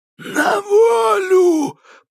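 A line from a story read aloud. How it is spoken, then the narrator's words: Wheezing rasp. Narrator (Russian): просипел Кощей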